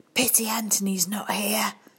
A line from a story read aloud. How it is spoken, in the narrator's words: whispered